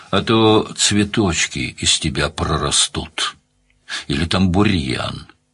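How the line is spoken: Calm stranger. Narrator (Russian): спокойно произнес незнакомец с пистолетом

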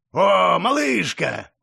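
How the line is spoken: Joyful growl. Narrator (Russian): радостно рыкнул здоровяк

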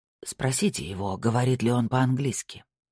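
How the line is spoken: Whispered. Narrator (Russian): прошептал Снайдер

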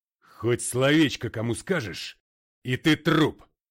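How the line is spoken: Growling after someone. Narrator (Russian): рыкнул МакГрей ему вслед

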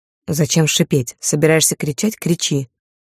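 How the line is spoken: Conciliatory hiss. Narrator (Russian): зашипел в ответ примирительно

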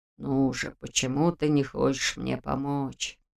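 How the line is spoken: Muttered. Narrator (Russian): пробормотал Нев

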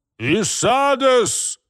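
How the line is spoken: Sudden commanding shout. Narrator (Russian): выкрикнул вдруг Ля Марон своим командным тоном, который заставил бы повиноваться ему и одного человека, и целое подразделение войск

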